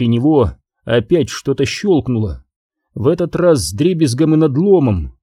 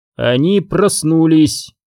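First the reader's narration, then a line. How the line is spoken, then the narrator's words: Eerily clear voice. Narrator (Russian): до ужаса ясным голосом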